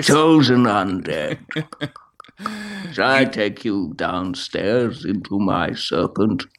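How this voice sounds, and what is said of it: Dark Souls serpent character voice. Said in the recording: “I was gonna do the one of the serpents, I think, and click my teeth afterwards”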